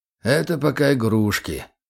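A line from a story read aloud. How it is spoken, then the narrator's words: Sighing. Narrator (Russian): вздохнул Григорьев-старший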